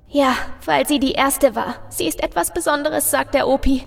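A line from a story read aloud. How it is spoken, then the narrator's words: Little girl sobbing softly. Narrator (German): bringt das kleine Mädchen unter leisen Schluchzern hervor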